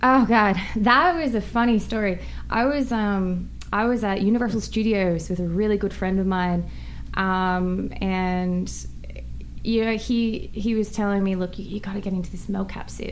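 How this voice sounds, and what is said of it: Australian accent. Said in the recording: “the Australian accent. ... It's my accent, ... a couple of drinks in me and gets even stronger”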